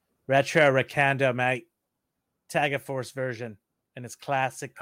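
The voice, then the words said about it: Put-on Australian accent. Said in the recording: “I don't know if he has Australian accent, but I'm going to do it anyways.”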